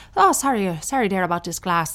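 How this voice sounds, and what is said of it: Put-on Irish accent. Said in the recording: “Why is my Irish accent getting worse and worse?”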